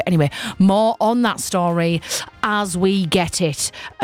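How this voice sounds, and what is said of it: Attempted newsreader voice. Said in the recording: “I'm trying to do a news voice there. It just wasn't working. I just can't do it.”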